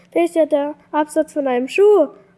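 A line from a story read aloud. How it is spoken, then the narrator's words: Called out. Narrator (German): rief Rollo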